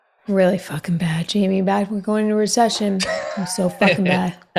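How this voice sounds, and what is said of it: Impression of another person. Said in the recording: “your best Cutter impression”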